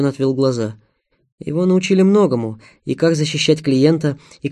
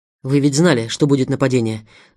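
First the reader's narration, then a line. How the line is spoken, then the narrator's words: Angry. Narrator (Russian): Зло сказал Семен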